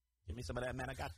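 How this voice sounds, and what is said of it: Tony Soprano impression. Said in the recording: “please continue to do a Tony Soprano impression.”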